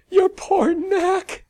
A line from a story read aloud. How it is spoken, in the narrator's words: Sally shrieked around gales of laughter